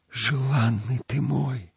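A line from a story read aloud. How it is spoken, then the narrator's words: Whispered. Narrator (Russian): прошептала Мавруша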